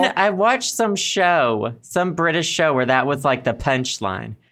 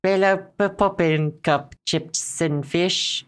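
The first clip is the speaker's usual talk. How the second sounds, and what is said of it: Bad attempt at British accent. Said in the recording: “I can't do a British accent when I say that. Why can't I do a British accent when I say that? ... Why can't you do a British accent, period? ... That was me having a stroke.”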